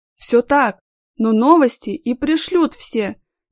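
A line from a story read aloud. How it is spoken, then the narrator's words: Hesitant interjection. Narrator (Russian): неуверенно вставил свое слово журналист Игорь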